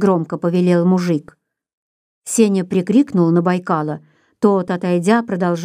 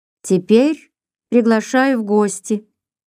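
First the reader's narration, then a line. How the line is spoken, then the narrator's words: Calm, commanding. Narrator (Russian): тем же спокойным и властным тоном сказал мужик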